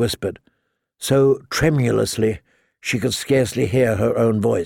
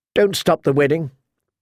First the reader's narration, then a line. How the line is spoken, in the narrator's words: she blurted